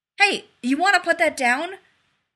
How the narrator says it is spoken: He called urgently to Jeff the Barbarian

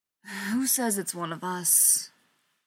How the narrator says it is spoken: John asked with a sigh

